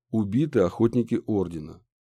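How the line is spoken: Calm reply from order member. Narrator (Russian): спокойно ответил орденский

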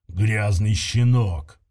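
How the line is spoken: Growl. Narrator (Russian): прорычал тактик

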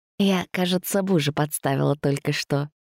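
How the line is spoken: Female whisper. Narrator (Russian): прошептала она

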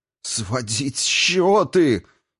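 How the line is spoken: Muffled sob. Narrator (Russian): Из горла Аратарна вырвалось глухое рыдание

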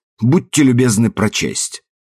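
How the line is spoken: Sharp, impatient. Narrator (Russian): Плохо скрывая нетерпение, он резко говорит

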